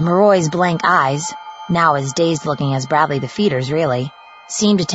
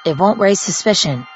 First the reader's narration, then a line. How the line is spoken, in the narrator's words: he repeated in a monotone